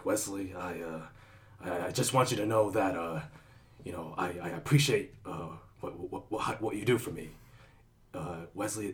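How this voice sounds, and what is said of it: Impression of Wilson Fisk. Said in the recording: “That's a very good impression, by the way. That's pretty good. ... D'Onofrio's Wilson Fisk or Kingpin”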